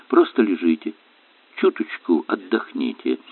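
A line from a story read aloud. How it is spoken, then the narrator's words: Gentle command. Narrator (Russian): Мягко велела Элен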